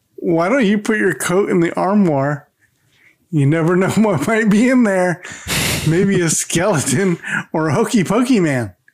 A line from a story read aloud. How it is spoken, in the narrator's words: Mork then giggles and suggests